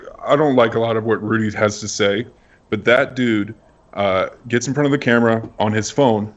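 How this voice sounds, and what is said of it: Usual voice. Nothing is said of it.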